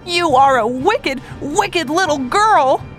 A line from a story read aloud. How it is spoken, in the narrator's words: Joe cried